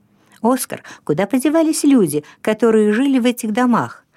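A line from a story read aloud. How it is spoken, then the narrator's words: Plain. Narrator (Russian): спросил Расмус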